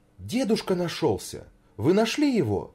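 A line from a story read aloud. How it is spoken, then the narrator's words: Joyful exclamation. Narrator (Russian): воскликнула она, вся искрясь от радости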